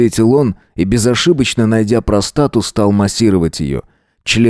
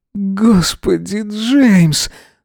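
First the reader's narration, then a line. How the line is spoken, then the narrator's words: Breathless exclamation. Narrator (Russian): снова выдохнул Эзра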